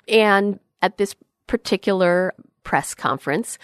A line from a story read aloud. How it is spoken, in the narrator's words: she stammered a bit